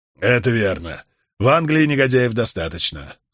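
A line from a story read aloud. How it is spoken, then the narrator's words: Sighing. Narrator (Russian): вздохнул Вайтерингтон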